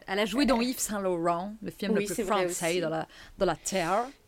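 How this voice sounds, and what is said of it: Fake English accent in French. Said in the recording (French): “je prends un accent anglais pour dire ça ... Il est bon, ton accent, ton faux accent anglais.”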